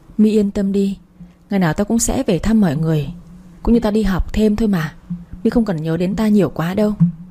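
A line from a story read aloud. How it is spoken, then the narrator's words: Suppressed sigh. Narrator (Vietnamese): Tôi cố ngăn tiếng thở dài đáp lại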